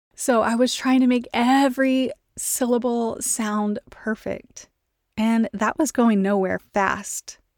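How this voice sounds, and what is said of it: Texan accent. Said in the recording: “My speech isn't the best. I live in Texas. I talk like a Texan.”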